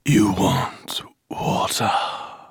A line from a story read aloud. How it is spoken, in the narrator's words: whispered the rider